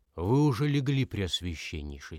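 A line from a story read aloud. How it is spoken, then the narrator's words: Plain. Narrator (Russian): спросил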